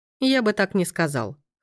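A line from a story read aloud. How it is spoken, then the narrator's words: Snorted. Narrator (Russian): хмыкнул Пабло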